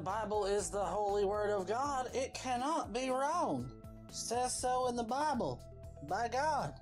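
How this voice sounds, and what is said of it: Southern Arkansas preacher voice. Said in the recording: “he does a pretty good, you know, Arkansas deacon-type voice for Southern Baptist”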